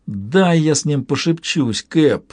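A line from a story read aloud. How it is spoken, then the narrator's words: Pleading. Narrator (Russian): взмолился Лавой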